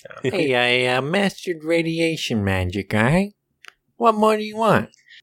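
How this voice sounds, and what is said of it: Put-on Chicago accent. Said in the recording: “as good of Chicago accent as we're going to get”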